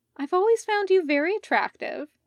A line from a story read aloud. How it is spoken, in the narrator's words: Stefan carried on, his tone lighter